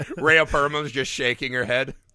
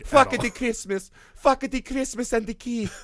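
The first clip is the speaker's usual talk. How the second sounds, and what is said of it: Imitates another person's voice, slightly Italian. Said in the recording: “That's my Melania impression. ... I like how Melania's just a little bit just a little bit Italian.”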